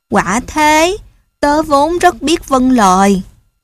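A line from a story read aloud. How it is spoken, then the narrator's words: Sighing. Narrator (Vietnamese): Chó thở dài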